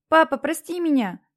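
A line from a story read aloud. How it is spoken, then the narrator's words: Shouting. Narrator (Russian): кричал он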